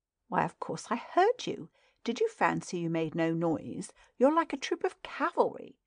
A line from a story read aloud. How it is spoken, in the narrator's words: beautifully laughed